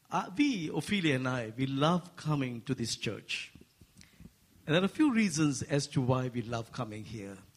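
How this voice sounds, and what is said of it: Asian accent. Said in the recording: “he speaks in a heavenly language that people of the earth, it's hard to understand sometimes ... I speak with an Asian accent.”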